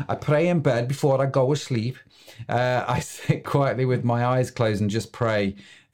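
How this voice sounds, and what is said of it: Put-on Scouse accent. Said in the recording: “I need to read this with a Scouse accent”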